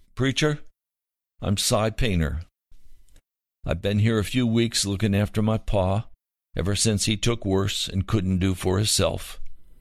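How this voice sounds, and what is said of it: Slow mountain drawl. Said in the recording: “He spoke with a slow drawl so common to mountain people.”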